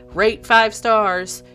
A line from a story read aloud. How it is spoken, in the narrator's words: he yelled